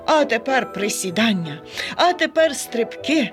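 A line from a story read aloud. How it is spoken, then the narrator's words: Joyful panting. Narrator (Ukrainian): радісно хекав він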